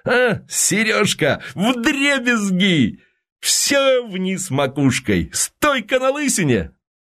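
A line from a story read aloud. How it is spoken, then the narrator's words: Furious high-pitched shout. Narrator (Russian): Константин бешено крикнул высоким голосом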